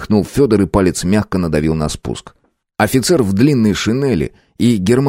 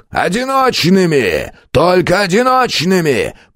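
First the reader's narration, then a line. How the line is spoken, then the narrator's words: Roar from below. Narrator (Russian): проревел внизу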